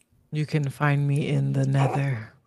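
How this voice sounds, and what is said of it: Deliberately deep voice. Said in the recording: “That deep voice.”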